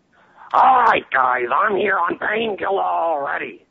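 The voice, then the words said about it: Gilbert Gottfried impression. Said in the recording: “doing an impression of Gilbert Gottfried ... That's pretty good ... that was horrible”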